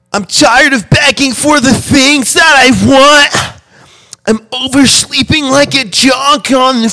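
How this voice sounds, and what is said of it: Overdramatic emo-style delivery. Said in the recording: “over dramatic, like emo accent ... Like as emo as possible?”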